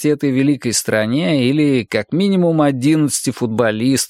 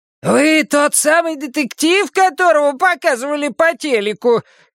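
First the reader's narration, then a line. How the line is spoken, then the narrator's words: Hoarse shout. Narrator (Russian): крикнула она ему сиплым голосом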